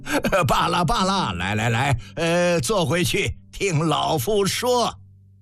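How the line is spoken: Hoarse cackling laugh. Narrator (Chinese): 蔡泽公鸭嗓呱呱笑道

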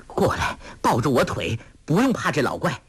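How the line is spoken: Panting. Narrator (Chinese): 梅超风当下喘气说

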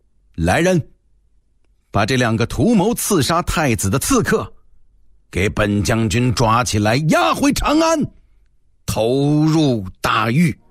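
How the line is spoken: Stern shout. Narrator (Chinese): 公孙贺 厉声喝道

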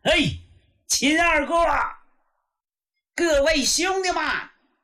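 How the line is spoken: Calling out. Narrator (Chinese): 程咬金喊

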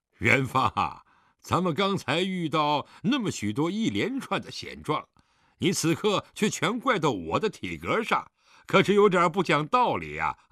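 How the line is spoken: Laughing heartily. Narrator (Chinese): 狄仁杰这下笑得更开怀了

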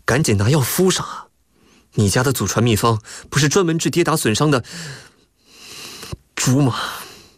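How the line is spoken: Through gritted teeth. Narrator (Chinese): 李富贵是咬牙从牙缝里挤出来的

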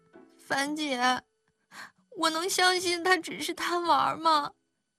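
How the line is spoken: Tearful question. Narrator (Chinese): 邱莹莹的哭声止了，却抬头问

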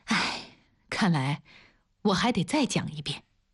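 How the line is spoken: Sighing, muttering to herself. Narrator (Chinese): 王丽叹了口气，自言自语道

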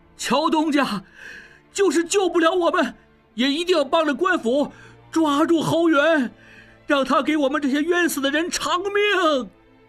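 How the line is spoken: Repeated shouting. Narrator (Chinese): 广圣元二掌柜仍在频频回头喊

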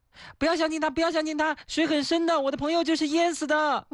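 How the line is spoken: Small creature shouting. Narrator (Chinese): 小松鼠 喊道

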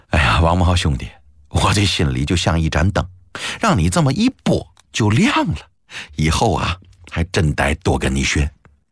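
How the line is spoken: Laughing. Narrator (Chinese): 笑着摇头说

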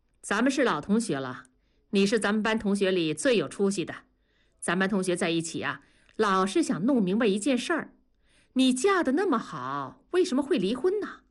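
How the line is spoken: Cold. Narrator (Chinese): 小梁冷冷地说

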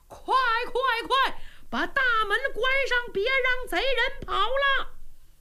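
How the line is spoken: Loud shout. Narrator (Chinese): 大管家秦福高喊

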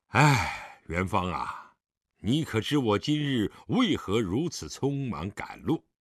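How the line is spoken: Long sigh. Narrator (Chinese): 狄仁杰长叹一声道

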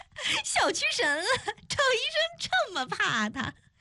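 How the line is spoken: Hearty laughter. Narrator (Chinese): 邱莹莹哈哈大笑

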